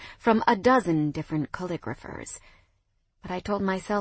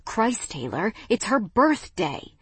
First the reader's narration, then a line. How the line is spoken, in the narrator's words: hissing